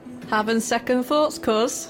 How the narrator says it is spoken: says brightly to better hide her own nerves

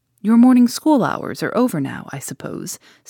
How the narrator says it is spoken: said she

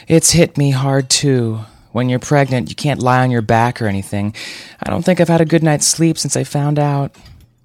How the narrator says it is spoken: Jenna let out a theatrical sigh and said

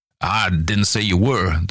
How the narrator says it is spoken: the little man snapped

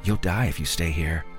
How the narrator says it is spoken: Fairy said in a flat voice barely heard over the howling wind

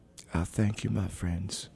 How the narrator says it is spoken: said Cheney quietly

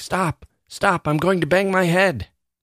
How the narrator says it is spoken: The man at the top of the ladder would become scared and start shouting

